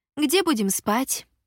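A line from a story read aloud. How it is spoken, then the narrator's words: Sharp question. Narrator (Russian): резко осведомилась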